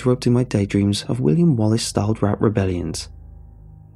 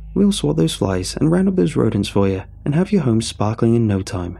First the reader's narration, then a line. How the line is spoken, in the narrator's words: Phil chuckled in a charming corporate way